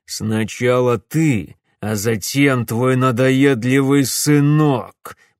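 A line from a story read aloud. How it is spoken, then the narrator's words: Growling threat. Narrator (Russian): прорычал он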